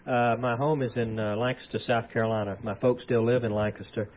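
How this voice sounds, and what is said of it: Southern US drawl. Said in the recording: “all of you, as we've mentioned before, will be talking with southern drawls ... Mine is a little bit less subdued than yours, but more subdued than my brother's. But I still talk like I'm from the South”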